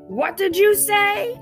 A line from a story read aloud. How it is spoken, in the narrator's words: bellowed